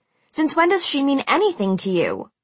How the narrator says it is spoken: I snapped

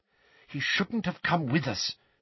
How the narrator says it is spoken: said Hermione in a worried voice

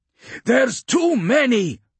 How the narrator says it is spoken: shouted over the thunder of gunfire and alien roars

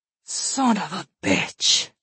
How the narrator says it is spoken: she said with a raspy voice

